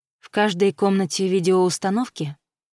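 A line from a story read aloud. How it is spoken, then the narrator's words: Calm girl's question. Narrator (Russian): спокойно спросила девушка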